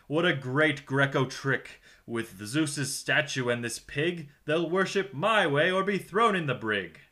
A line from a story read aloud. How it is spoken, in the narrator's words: chuckled and clucked